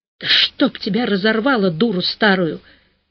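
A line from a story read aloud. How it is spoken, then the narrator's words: Quiet cursing. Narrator (Russian): тихо ругнулся Корыстылев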